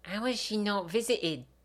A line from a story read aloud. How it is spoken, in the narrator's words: Gemma whispers